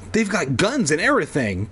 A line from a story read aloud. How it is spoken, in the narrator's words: Kermit continued excitedly